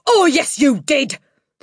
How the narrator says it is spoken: the Trunchbull roared back

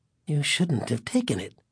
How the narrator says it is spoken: he told them, speaking softly

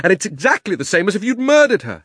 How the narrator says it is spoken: shouted Diggory

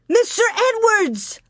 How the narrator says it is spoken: Laura shouted

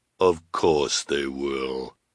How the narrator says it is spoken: said the sinister woman, in her deep, deep voice

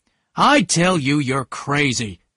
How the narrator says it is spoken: Tom shouted again

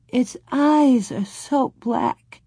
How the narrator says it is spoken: Laura sobbed

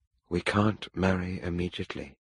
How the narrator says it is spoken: Helen said quietly

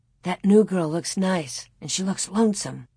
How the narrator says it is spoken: Laura said in a low voice

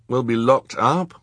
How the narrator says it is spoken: Klaus said nervously

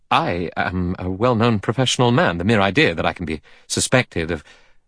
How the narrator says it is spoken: Armstrong said quickly

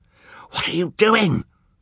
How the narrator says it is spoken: Olaf shrieked

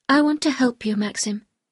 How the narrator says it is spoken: I said

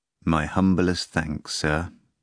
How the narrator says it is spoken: the man replied just as mournfully

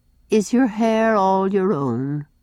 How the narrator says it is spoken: said sadly

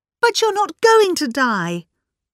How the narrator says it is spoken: cried Philippa

